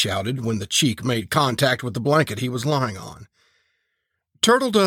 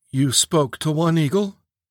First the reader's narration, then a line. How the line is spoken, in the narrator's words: Preacher sighed